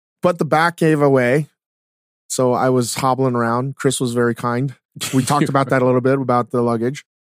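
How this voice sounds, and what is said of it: Slightly hoarse voice. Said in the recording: “I lost my voice ... I'm a little hoarse right now, maybe because I was at the casino yelling and hooping and hollering”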